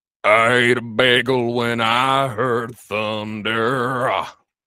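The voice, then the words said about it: Warbling imitation of a band's singer. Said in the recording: “I don't do a good impression of them, but I'm going to try. I'm going to warble.”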